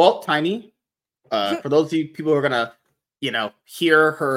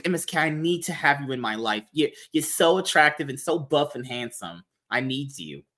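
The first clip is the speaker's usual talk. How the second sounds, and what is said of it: Put-on Queens New York accent. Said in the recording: “Why did I suddenly get a Queen's accent?”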